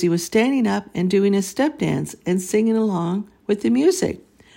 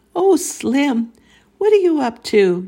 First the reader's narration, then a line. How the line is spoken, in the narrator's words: Nanny exclaimed